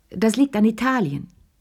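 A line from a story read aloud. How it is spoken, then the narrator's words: Loud and enthusiastic. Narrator (German): erklärte begeistert und laut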